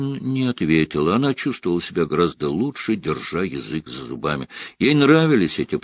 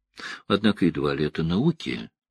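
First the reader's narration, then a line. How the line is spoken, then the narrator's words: Sighing. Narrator (Russian): вздохнула Элайн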